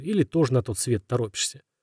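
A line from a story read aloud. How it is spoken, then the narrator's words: Mutter under breath. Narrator (Russian): пробормотал себе под нос Игорь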